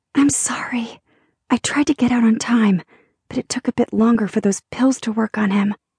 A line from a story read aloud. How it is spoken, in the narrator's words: Jolene whispered